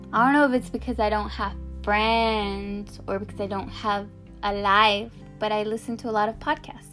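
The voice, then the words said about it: Speaks with a noticeable accent. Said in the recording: “Did you guys hear that accent? It's always there.”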